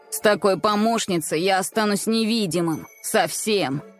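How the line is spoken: Sarcastic remark. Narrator (Russian): язвительно заметил Эй

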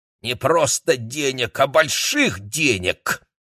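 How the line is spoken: Angry grumble. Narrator (Russian): злобно буркнула Мэй Ли

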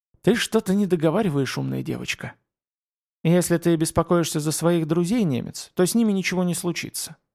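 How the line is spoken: Calm. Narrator (Russian): спокойно ответила Митаюки

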